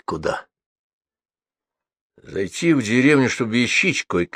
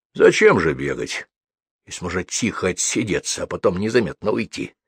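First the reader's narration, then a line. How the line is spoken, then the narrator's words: Smirking snort. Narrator (Russian): хмыкнул Леший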